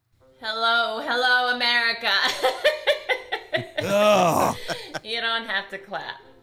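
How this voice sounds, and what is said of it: Kamala Harris impression. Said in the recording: “does an amazing impression of her ... she's a Kamala Harris impersonator ... She's got the cackle”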